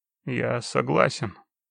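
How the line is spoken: Muffled. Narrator (Russian): глухо сказал

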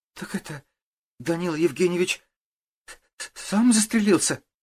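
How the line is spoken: Girl's faltering babble. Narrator (Russian): пролепетала девушка

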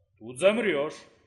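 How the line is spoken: Grumbling. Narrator (Russian): проворчала Атлика

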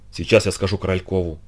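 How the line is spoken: Whispered. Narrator (Russian): прошептала

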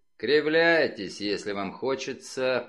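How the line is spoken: Grumble. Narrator (Russian): проворчал он

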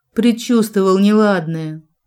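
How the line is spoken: Tired. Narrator (Russian): сказал устало

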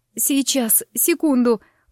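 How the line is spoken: Breathless groan. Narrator (Russian): простонала я, силясь восстановить дыхание

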